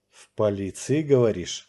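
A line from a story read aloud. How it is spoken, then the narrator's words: Repeated through clenched teeth. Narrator (Russian): сквозь зубы повторил я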